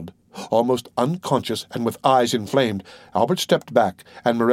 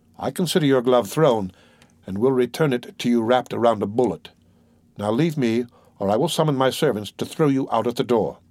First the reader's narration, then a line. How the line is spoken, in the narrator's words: said he in a solemn tone